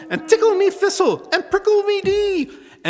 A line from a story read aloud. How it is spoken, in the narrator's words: shrieked she